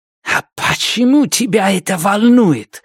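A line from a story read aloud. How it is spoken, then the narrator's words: Hissing. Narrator (Russian): зашипела Амитав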